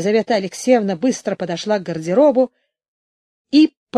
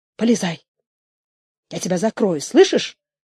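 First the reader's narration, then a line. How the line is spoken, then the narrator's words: Whispered. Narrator (Russian): сказала она шепотом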